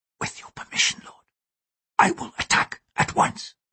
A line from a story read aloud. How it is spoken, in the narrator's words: the samurai whispered